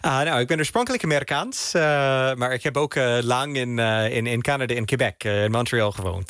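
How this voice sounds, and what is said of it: Fluent Dutch with foreign accent. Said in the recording (Dutch): “Je spreekt heel goed Nederlands, maar wel met het accent.”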